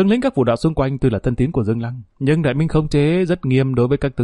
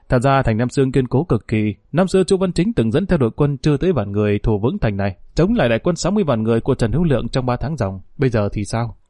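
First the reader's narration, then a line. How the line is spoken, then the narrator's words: Smiling. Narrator (Vietnamese): Lý Tự Nhiên mỉm cười nói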